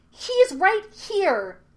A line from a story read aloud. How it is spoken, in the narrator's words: shouted Aang